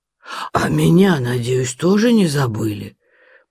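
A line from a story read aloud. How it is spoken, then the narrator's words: Wheezing, strained. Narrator (Russian): прохрипел, готовый лопнуть от чрезмерной полноты, пион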